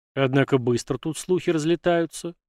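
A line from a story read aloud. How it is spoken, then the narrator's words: Confused mutter. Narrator (Russian): растерянно буркнул Егор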